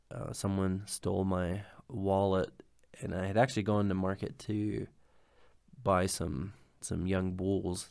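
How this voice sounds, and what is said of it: Sick, congested voice. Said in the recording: “I've been sick now for something like a week. Probably you can tell it in my voice... I have COVID”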